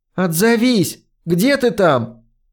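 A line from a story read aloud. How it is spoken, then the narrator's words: Loud call. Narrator (Russian): позвала его, на этот раз громко выкрикнув его имя, и добавила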